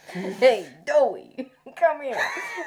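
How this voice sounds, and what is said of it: Put-on New York accent. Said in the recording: “turned into a New York accent”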